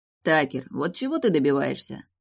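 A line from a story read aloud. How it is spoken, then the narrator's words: Weary. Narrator (Russian): устало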